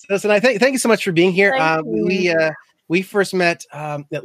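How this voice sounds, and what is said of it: Usual voice. Nothing is said of it.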